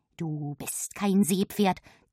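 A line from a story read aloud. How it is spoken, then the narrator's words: Hissed. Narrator (German): zischt Silfe mir zu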